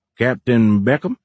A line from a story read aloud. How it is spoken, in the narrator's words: Fisher asked in a southern drawl that matched Horn's